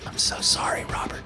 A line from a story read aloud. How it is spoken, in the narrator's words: whispered to myself